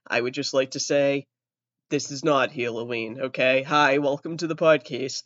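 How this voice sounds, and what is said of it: Voice altered by illness. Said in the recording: “my voice is a little different. I have COVID”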